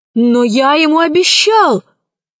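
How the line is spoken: Exclaiming. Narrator (Russian): воскликнул Пашка

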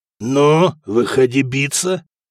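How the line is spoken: Hoarse, attempted laugh. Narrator (Russian): хрипел Сигурд и попытался засмеяться

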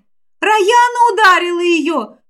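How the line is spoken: Group of girls shouting. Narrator (Russian): тут же закричали ее подруги

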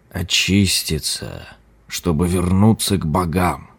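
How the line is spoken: Muttering old monk. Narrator (Russian): пробормотал лама

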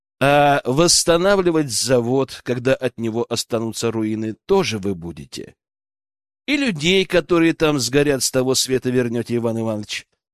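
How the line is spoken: Calm inquiry. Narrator (Russian): Спокойным голосом поинтересовался я

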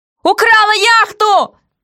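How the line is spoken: Terrified yell. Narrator (Russian): заорал толстяк в ужасе

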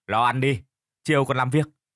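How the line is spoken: Harsh, clipped voice. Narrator (Vietnamese): gã gằn giọng

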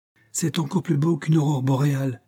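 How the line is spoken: Exclaiming. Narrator (French): s'écria Mrs

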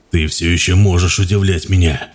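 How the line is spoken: Mutter through clenched teeth. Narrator (Russian): пробормотал сквозь стиснутые зубы

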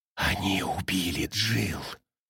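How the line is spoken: Whispered interruption. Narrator (Russian): прошептала Эбигейл, перебивая ее

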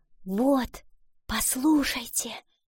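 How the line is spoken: Whisper. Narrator (Russian): прошептала она

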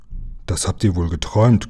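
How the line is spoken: Growled. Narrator (German): knurrte

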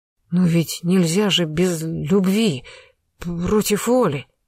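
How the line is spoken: Stammering. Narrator (Russian): заикаясь, начал Громов

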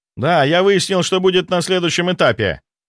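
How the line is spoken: Deafening yell. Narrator (Russian): Он так завопил в телефон, что я чуть не оглох

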